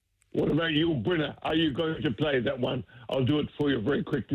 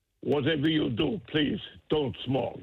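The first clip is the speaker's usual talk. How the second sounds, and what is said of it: Imitates another person's voice. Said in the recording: “you do the voice... It's a very good impersonation.”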